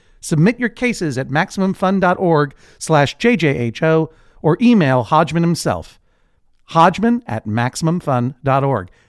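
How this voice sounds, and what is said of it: Professional radio announcer voice. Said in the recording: “professional radio voice”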